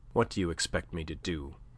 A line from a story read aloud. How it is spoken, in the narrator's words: asked Andre Louis, evincing surprise in his own turn, but faintly